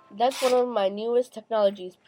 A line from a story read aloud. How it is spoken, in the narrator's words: Pete said